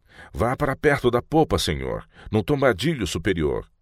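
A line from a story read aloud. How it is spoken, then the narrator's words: Shouting. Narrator (Portuguese): Ele gritou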